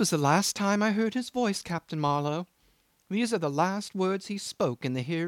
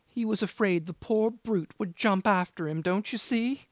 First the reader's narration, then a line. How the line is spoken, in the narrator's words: he pursued with a quaver